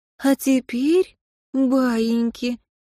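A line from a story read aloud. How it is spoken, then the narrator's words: Cooing. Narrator (Russian): проворковала Амалия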